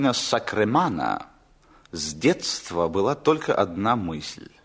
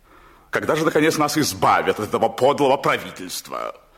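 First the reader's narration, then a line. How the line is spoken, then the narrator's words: Loud declaration. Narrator (Russian): он громко заявлял жене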